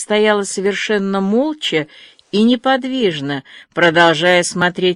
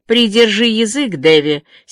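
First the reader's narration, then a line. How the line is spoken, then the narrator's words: Angry. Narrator (Russian): сердито сказала миссис Рэйчел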